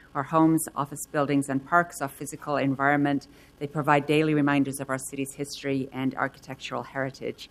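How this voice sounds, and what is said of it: British accent. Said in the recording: “I have a little bit more strong of a British accent right now”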